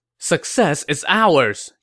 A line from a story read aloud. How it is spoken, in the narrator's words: Zhuge Liang exclaimed